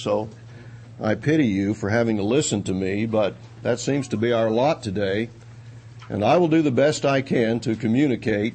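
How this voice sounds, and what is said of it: Congested stuffy voice, Texas accent. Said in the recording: “from the panhandle of Texas and have a terrible accent ... a stopped-up nose so that I can hardly speak this morning”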